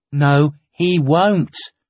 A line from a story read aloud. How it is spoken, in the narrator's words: I said calmly